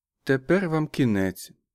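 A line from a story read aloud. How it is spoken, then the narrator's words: Quiet, almost sympathetic woman. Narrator (Ukrainian): сказала жінка тихо, майже співчутливо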